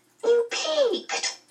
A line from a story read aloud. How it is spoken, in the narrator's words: Charles Wallace cried indignantly